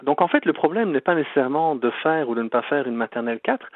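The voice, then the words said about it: Belgian French accent. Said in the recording (French): “vous l'entendez avec mon accent, que je suis pas né ici au Québec, je suis né en Belgique”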